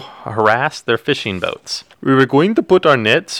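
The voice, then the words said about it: Put-on Norwegian accent. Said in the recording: “Norwegian accent ... Was that your Norwegian accent? ... Do it better. ... I honest to God thought you were doing like a racist sounding like Indian accent.”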